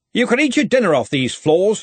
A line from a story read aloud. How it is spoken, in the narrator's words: said Ridcully sharply